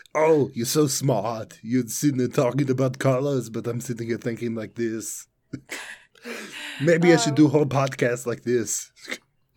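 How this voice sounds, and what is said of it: Arnold impression voice. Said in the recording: “I can't do other accents besides Arnold. I can do that one. ... That would damage your throat so bad.”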